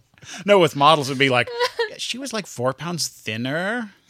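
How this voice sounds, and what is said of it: Put-on Valley girl accent. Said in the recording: “that's a nice Valley girl accent you have.”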